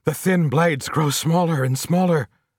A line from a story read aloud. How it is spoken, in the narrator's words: cried the nearest oarsman